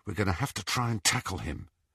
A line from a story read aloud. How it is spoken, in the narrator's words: he whispered to Ron